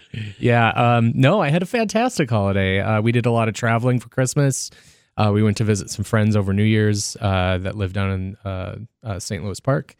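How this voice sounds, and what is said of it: Slightly hoarse voice. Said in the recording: “Speaking of hoarse voices, I got a little bit of a throat bug”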